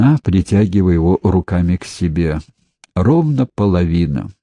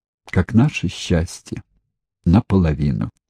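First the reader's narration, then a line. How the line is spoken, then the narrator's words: Sad. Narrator (Russian): Ирина грустно сказала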